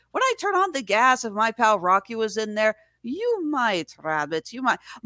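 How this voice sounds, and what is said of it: Inconsistent put-on Irish accent. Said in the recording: “My Irish accent comes and goes in waves.”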